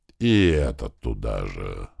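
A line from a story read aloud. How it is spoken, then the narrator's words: Sigh. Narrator (Russian): вздохнул я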